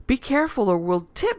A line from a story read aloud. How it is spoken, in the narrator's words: she squealed